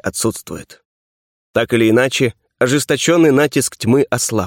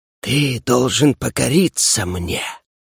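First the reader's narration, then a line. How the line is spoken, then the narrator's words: Haughty hiss. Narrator (Russian): высокомерно прошипела она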